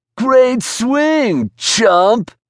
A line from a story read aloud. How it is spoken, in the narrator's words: shouted at Josh, laughing hysterically